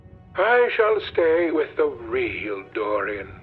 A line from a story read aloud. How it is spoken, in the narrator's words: he said sadly